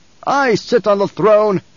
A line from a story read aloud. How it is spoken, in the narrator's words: he barked